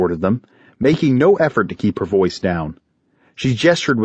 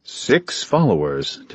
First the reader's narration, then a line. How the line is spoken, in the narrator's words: Talos murmured